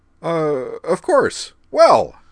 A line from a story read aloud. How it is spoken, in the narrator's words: said hastily